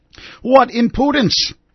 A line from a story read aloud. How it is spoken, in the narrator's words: yelled